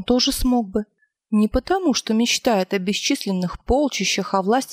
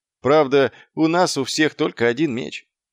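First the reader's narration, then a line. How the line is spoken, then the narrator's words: Gloomy. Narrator (Russian): мрачно промолвил Маркоу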